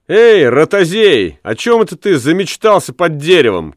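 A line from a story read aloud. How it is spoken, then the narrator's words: Shout. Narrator (Russian): крикнула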